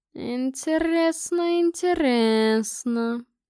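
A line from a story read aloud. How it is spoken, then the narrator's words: Drawled by mage. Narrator (Russian): протянул маг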